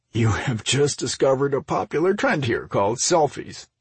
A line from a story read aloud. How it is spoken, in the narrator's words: Mike laughed